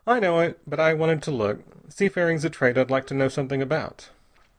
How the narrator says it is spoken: he said cheerfully

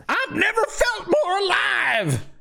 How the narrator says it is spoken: He screams

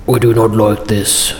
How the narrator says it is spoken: grumbled Narvi

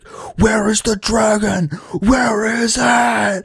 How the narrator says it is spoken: Ethan screaming

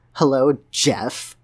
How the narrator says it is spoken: she said, her bruised nose scrunched up into a snarl

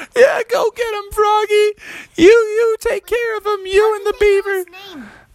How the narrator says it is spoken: everyone laughed and said

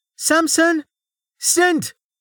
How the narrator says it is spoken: Vanna cried

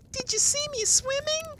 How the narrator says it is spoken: squeaked Roo, excitedly

